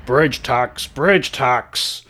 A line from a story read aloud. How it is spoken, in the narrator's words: this creature is just yelling at you